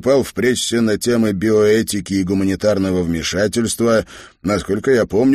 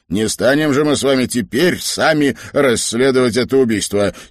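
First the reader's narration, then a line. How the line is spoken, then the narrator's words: Angrily. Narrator (Russian): сердито сказал Фаулс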